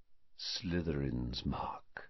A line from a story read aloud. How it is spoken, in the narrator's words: he said quietly